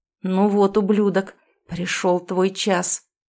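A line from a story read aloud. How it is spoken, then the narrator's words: Through clenched teeth. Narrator (Russian): Процедил я сквозь зубы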